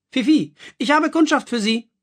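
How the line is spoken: Called out. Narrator (German): rief Madame Marilou

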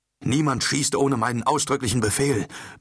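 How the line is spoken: Bellowing. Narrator (German): brüllte Charbadan

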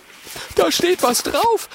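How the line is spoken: Excited call. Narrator (German): ruft Oskar aufgeregt

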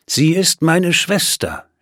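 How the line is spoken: Calm reply. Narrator (German): entgegnete er ruhig

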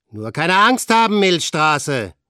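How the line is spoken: Called out. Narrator (German): rief Frank

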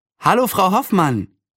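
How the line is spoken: Cheerful call. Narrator (German): rief Anne und hüpfte fröhlich

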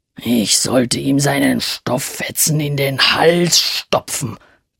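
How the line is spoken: Grumbled. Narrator (German): brummte er

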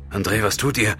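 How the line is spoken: Gasping. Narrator (German): japste er

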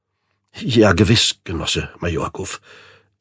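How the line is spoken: Gasping. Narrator (German): japste Rublev

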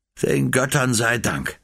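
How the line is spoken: Sigh. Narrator (German): seufzte er

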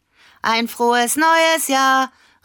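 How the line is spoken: Calling out. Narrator (German): rief Lena

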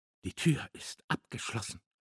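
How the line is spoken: Whisper. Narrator (German): flüsterte er

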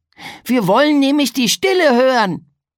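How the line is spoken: Calling out. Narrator (German): rief Pegeldi

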